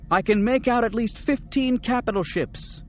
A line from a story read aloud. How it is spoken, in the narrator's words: Mara shouted